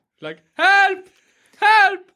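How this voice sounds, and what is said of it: Yelling for help. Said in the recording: “you're like yelling ... You're yelling”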